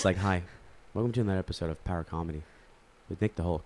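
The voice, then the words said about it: Weird, soothing voice. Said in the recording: “I did it in such a weird voice, such a soothing voice.”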